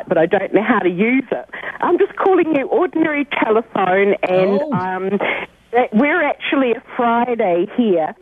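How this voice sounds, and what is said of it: Speaks with an accent. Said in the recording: “We love your accent, darling.”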